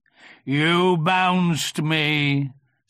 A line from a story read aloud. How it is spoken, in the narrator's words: said Eeyore gruffly